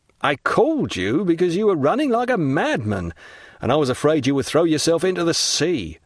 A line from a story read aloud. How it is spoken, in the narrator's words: said Caderousse, laughing